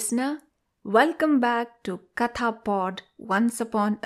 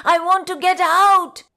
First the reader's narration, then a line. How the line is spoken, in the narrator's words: He screamed